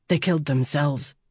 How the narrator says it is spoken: she whispered

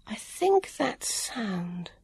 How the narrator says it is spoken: murmured

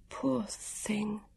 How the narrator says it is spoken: Vivian murmured

